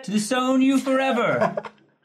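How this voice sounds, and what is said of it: Singing in an accent. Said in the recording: “Are you singing in an accent?”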